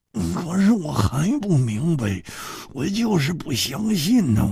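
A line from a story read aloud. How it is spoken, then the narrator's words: Muttering. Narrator (Chinese): 胡铁花喃喃地说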